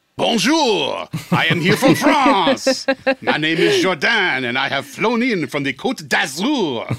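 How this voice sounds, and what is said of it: Put-on French accent. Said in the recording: “Did I just offend all the French listeners with my accent? ... you got to bust out your French accent.”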